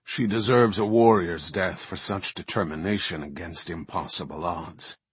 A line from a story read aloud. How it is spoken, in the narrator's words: rumbled the deeper voice